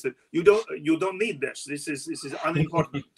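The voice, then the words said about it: Poor put-on Russian accent. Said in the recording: “my terrible Russian accent”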